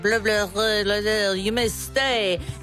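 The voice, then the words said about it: Put-on French accent. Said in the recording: “this guy comes in with a French accent.”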